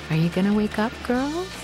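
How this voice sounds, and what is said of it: Gentle, beautiful imitated motherly voice. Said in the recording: “in that beautiful voice of my mom's”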